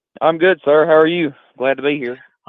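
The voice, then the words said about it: Deep Southern Georgia drawl. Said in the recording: “you sound like you're from Georgia ... That deep southern drawl.”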